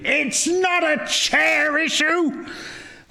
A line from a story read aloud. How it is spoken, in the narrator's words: I yelled somewhat intemperately